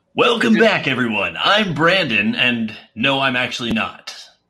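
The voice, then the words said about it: Imitation of the usual host's voice. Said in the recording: “do the voice, possibly, maybe. Just not as good ... Not as good. Not bad. It's not bad. He's just got a legendary voice.”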